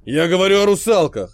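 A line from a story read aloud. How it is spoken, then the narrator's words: Barking shout. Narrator (Russian): рявкнул он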